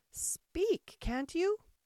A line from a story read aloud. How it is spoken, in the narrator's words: Hare cried impatiently